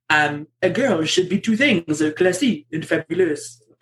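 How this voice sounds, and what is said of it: Put-on French accent. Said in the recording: “I'll try and read this out in a French accent.”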